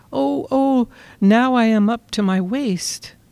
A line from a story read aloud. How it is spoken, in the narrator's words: exclaimed